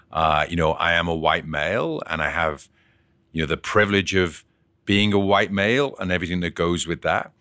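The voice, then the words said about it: Liverpool English accent. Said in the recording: “You can tell from the accent for a starter... I was actually born and bred in Liverpool”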